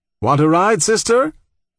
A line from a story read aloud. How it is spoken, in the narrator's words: The favorite joke of Algerian undertakers, when driving an empty hearse, is to shout